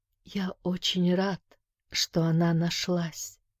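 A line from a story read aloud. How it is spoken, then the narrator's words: Barely audible whisper. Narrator (Russian): прошептал тот едва слышно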